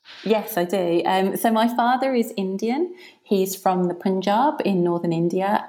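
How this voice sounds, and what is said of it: British accent. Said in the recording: “Obviously, you have a British accent.”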